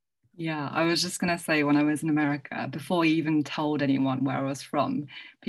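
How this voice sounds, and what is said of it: British accent. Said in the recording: “people would hear my accent and just immediately go, oh my God, I love your accent. You're from Britain... your British accent”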